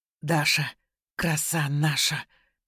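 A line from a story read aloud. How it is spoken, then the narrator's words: Breathy exhale. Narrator (Russian): выдохнул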